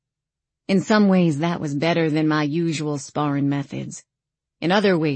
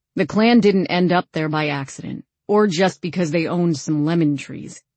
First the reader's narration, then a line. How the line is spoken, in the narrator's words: he said